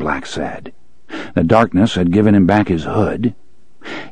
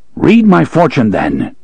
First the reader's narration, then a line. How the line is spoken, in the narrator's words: he said harshly